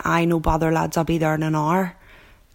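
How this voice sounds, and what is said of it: Working-class Belfast accent. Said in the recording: “the real working-class inner city that I grew up in, would be sometimes considered a smick-like accent ... my working class accent ... the vowel sounds”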